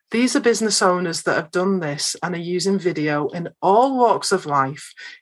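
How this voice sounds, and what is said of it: Lancashire English accent. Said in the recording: “that lady has a little bit of a different accent ... I'm from Lancashire in Northwest England”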